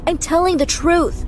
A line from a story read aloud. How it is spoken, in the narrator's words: I shouted